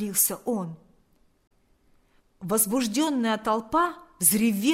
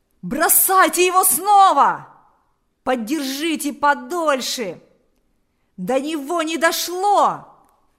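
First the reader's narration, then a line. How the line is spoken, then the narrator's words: Several voices shouting. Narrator (Russian): закричали несколько голосов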